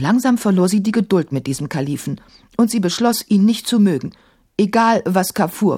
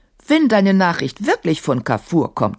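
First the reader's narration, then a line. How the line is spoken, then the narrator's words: Plain. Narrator (German): sagte er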